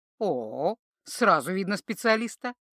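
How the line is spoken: Approving snort. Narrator (Russian): одобрительно хмыкнул

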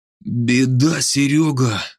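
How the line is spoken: Exhaled words. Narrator (Russian): выдохнул Северский

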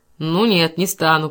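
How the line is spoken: Grumbling. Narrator (Russian): проворчал мистер Тирнан

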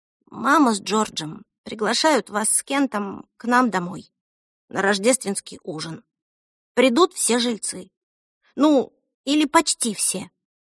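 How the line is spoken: Quiet mumble. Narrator (Russian): тихо пробормотала

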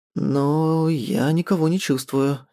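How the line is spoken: Uncertain. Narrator (Russian): неуверенно добавляю я

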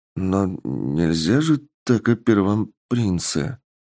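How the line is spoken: Quiet, fearful. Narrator (Russian): тихо сказал парень, боясь, что их всех повесят из-за оскорбления королевской особы

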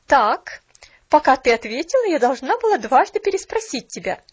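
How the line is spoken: Sharp retort, young woman. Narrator (Russian): Резко бросила молодая женщина

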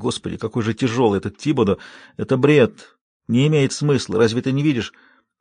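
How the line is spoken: Strained whisper. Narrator (Russian): Расти с трудом удавалось шептать

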